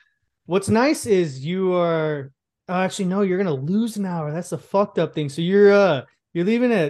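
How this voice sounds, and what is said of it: Usual voice. Nothing is said of it.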